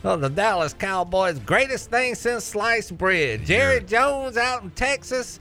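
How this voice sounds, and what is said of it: Poor put-on Texas Southern accent. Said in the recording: “you got to throw in the Southern accent ... Is ... Texas accent good? Because it's not.”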